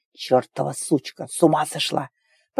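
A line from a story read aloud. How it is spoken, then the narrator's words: Breathless strained wheeze. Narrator (Russian): Просипел не своим голосом, пытаясь восстановить спертое дыхание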